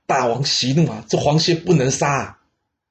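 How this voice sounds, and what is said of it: Quiet, hushed voice. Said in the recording (Chinese): “小声”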